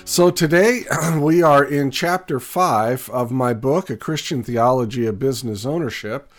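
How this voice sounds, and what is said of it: Raspy voice. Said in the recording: “My voice has been a bit raspy lately. ... cold and flu-like symptoms, and it's attacked my voice a little bit.”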